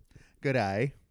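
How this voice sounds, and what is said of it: Put-on Australian accent. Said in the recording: “do an Australian accent ... Australian accent is rough ... It's like you're chewing gum in the back of your throat.”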